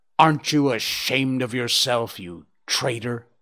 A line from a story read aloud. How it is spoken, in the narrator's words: In a quite different voice, in control of himself, sad and bitter, he snarled